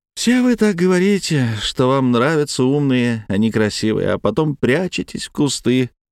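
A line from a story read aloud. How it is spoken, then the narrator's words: Fake sigh. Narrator (Russian): делано вздохнула Паулина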